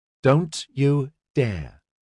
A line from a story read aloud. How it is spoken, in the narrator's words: Christabel said